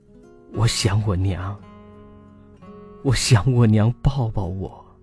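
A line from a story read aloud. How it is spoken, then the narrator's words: Choked, sobbing. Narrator (Chinese): 他哽咽的说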